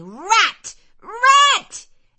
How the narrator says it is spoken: bellowed out aloud

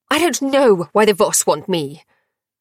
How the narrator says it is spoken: the Grail spat

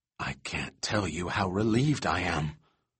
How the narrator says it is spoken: She whispered

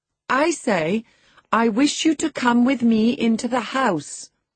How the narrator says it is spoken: I cried, thinking him deaf, yet highly disgusted at his rudeness

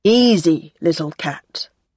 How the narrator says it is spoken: Graham said, his voice still calm

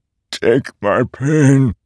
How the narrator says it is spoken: he croaked

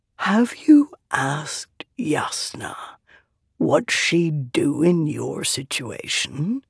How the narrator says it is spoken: He asked softly

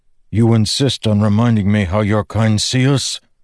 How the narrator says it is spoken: Kaladin grunted

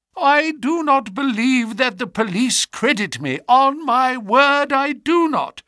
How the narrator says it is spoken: said he in a wailing voice

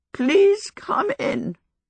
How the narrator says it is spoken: said, a little croakily

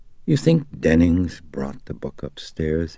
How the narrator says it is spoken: he asked

